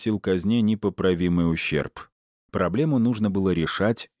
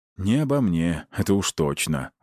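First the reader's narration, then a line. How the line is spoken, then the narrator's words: Gloomy sigh. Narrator (Russian): угрюмо вздохнул Аид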